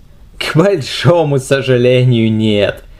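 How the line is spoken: Laughing Spaniard. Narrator (Russian): рассмеялся испанец

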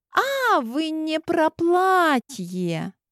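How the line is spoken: Sigh. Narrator (Russian): Она вздохнула

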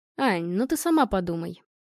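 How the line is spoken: Calm. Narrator (Russian): спокойно ответил Вячеслав

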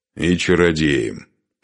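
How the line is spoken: Grumbled. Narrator (Russian): проворчал Духарев

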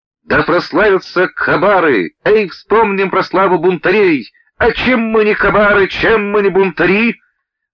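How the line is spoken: Shout. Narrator (Russian): кто-то крикнул

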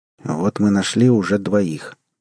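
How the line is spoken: Captain speaking quietly. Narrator (Russian): тихо сказал капитан

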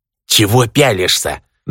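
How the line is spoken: Growled in Orcish. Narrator (Russian): На орчьем зарычал Исав

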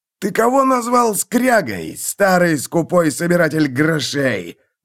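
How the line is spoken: Howl. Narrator (Russian): взвыл Фиргиксон

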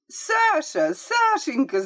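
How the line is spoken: Shout. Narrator (Russian): закричала Марийка

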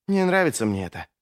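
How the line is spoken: Whispered reply. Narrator (Russian): прошептал Ищейка в ответ

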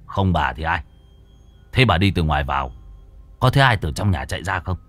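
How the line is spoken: Harsh, clipped. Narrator (Vietnamese): Gã gằn giọng

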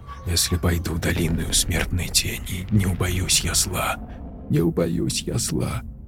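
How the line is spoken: Sobbing whisper. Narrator (Russian): шептала, тихо всхлипывая, Тори одними губами

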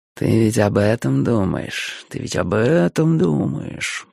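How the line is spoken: Soft whisper in ear. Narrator (Russian): прошептал кто-то тихонько мне на ухо

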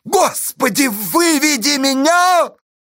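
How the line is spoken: Anguished, desperate shout. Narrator (Russian): В тоске и отчаянии закричал Асташа

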